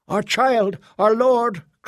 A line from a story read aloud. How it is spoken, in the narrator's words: cried another